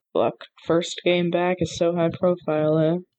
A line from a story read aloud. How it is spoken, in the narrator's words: Moody grumbled